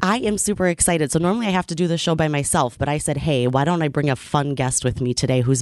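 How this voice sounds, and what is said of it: Hoarse voice. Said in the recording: “I'm dealing with a little bout of laryngitis today.”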